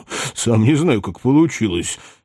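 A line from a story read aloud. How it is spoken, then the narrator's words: Muttering under breath. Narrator (Russian): себе под нос бормотал он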